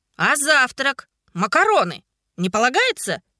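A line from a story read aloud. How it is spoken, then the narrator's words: Young man shouting from afar. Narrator (Russian): выкрикнул из своего закутка парень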